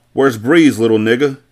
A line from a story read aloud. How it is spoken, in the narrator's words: Carter yelled